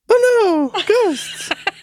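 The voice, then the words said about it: High-pitched scared acting voice. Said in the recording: “Why did your voice get so high? ... That's his acting voice.”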